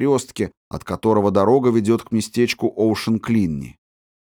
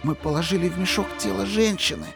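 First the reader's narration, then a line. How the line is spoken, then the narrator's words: Whisper. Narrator (Russian): прошептал Фетц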